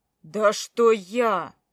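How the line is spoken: Barked. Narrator (Russian): рявкнул он

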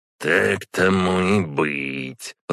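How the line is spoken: Grumbling under breath. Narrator (Russian): проворчала она себе под нос

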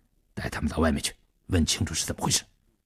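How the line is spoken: Low commanding. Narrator (Chinese): 低声命令

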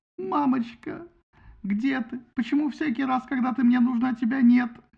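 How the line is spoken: Sobbing. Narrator (Russian): говорил он, рыдая

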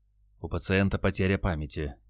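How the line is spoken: Quiet report. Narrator (Russian): тихо сообщил санитар

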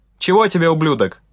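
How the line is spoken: Shouted. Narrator (Russian): крикнул Андрей

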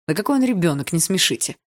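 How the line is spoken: Scornful snort. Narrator (Russian): фыркнула Атом

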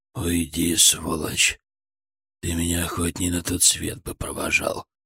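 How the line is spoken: Hoarse wheeze. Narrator (Russian): Просипел Бобков

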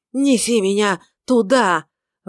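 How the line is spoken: Ringing shout. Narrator (Russian): выкрикнул он звенящим голосом

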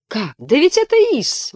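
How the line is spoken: Exclaiming. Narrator (Russian): воскликнула Мэриан

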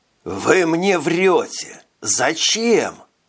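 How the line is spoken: Hissing. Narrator (Russian): прошипел он

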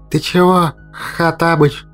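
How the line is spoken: Indignant wheeze. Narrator (Russian): возмущенно просипел Мимар

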